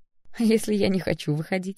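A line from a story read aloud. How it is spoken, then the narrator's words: Laughing. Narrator (Russian): рассмеялась я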